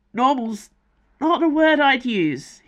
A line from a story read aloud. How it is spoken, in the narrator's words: he sputtered